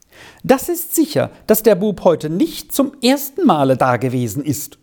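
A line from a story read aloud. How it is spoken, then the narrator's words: Very agitated woman. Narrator (German): schloss sie sehr aufgeregt ihre Mitteilungen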